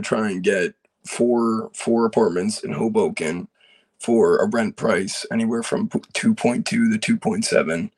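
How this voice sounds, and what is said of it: Hoarse, mostly lost voice. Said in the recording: “sorry about my voice, by the way, I lost it.”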